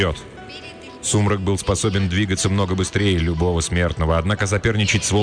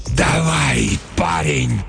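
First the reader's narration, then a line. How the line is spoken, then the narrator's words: Hoarse wheeze. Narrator (Russian): прохрипел Сумрак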